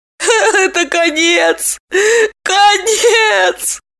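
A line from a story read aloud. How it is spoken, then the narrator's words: Sobbing repetition. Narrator (Russian): всхлипывая твердила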